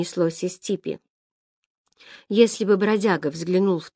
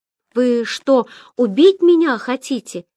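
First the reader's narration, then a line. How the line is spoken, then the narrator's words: Desperate cry under blows. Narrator (Russian): отчаянно крикнул Ян после новых затрещин, которые так и сыпались на него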